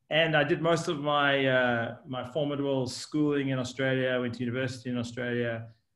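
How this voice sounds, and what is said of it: Mixed South African-Australian accent. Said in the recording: “my accent moves in between South Africa and Australia.”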